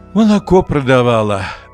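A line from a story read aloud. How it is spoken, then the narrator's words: Sighing old woman. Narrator (Russian): вздохнула баба Рит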